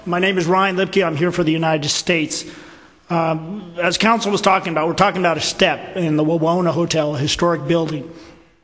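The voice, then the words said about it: Hoarse, strained voice. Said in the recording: “Excuse my voice. I lost it over the weekend. I apologize. I'll try to speak up as best I can.”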